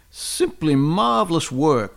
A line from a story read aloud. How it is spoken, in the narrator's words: he would exclaim enthusiastically